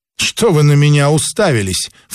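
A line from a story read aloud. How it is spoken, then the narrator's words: Irritated snort. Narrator (Russian): фыркнула фея раздраженно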